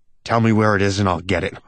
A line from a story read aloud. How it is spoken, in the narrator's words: I growl